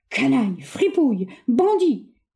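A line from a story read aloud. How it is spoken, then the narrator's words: Roared. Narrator (French): rugit-il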